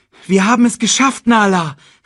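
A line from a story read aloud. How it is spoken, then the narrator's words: Called out. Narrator (German): rief er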